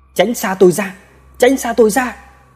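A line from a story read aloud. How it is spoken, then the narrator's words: Panicked shouting while fleeing. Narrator (Vietnamese): Vừa bỏ, ba mình vừa hét lên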